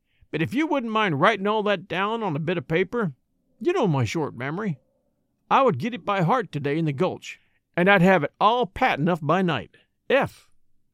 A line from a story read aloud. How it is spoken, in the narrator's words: he added, with a short sigh